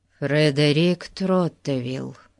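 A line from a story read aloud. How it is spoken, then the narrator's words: Glum introduction. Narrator (Russian): уныло представился Фати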